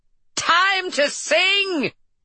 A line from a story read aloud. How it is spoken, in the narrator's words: Norma screamed again